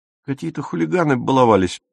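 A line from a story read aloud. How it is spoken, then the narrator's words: Timid babbling. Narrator (Russian): пролепетал Пауль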